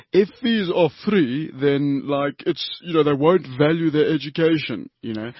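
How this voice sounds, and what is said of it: Put-on unidentified accent. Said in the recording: “I don't know what accent that was”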